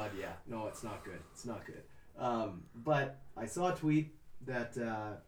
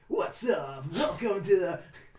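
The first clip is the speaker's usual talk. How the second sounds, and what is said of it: Sports radio announcer voice. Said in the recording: “that like sports talk ... your sports radio voice”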